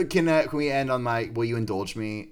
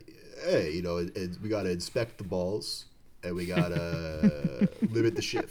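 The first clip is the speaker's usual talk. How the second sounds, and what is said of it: Imitates another person's voice. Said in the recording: “That's a good impression.”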